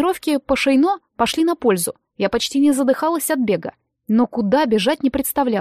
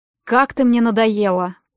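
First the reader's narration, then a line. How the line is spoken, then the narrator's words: Gloomy. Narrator (Russian): проговорил он мрачно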